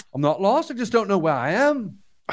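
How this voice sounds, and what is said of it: Put-on Liverpool accent. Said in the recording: “his Liverpool accent ... He sounded like a Beatles lyric”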